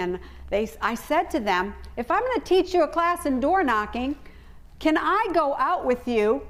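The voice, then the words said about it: American accent. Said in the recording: “I know I'm not an Australian, and I know my accent gives me away ... Will they accept me as an American?”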